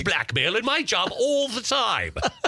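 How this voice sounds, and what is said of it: Put-on English professor accent. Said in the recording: “I don't know why I have an English accent. I always think of professors. ... You do the accents really well, though.”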